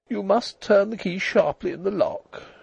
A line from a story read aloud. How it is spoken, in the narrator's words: said weakly